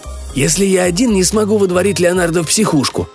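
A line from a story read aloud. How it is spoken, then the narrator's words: Whispered grumble. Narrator (Russian): пробурчал Эмери шепотом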